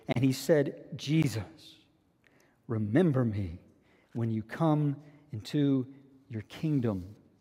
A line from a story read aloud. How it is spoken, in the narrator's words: he says to him tenderly